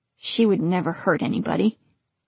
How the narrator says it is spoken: Rick said, but weakly, as if he wasn't totally convinced

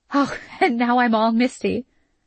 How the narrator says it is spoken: her mother said, laughing

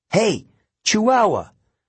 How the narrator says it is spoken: yelled

